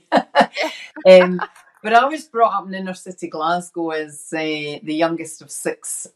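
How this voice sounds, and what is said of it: Scottish accent. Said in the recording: “I was brought up in Scotland. It's pretty obvious by the accent.”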